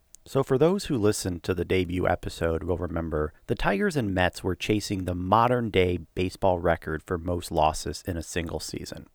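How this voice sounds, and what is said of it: Low, altered late-night DJ-like tone. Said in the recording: “my voice has a bit of a different tone to it ... I do have young onset Parkinson's disease, which sometimes can affect my speaking tone ... that late night R&B DJ voice ... I am playing hurt”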